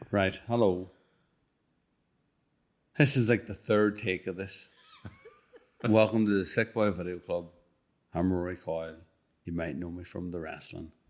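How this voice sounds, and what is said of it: Defeated, weary-sounding delivery. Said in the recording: “You sound so defeated.”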